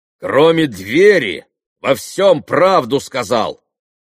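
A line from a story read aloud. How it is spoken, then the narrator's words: Loud shout. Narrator (Russian): громко крикнул Митя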